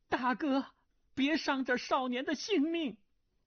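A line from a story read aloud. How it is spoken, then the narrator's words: Woman crying out. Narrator (Chinese): 一个女子声音叫道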